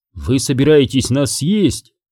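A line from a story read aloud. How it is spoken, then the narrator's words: Calm woman's voice. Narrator (Russian): женщина спокойно произнесла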